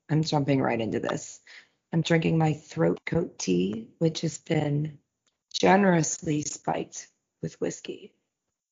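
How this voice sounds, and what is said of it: Hoarse, raspy, deep voice. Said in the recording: “You sound like a dude ... My deep voice. ... I'm a little hoarse. ... It's very raspy, sexy.”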